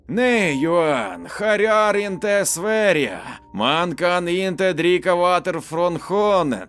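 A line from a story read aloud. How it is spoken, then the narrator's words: Voice heard. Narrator (Russian): послышался голос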